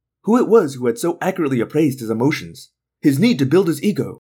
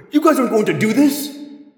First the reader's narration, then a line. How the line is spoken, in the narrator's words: David cried